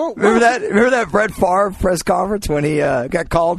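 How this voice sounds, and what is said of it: Usual voice. Nothing is said of it.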